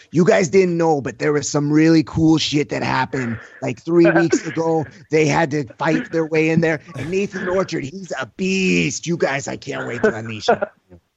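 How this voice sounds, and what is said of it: Imitates another person's voice. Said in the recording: “That's a good Eddie Bravo impression right there.”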